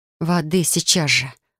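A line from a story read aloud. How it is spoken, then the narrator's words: Hoarse, gasping in pain. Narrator (Russian): прохрипела я, задыхаясь от боли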